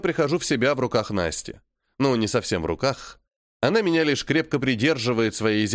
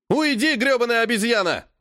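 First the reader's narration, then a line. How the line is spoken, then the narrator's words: Young boy yelling. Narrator (Russian): вопит графенок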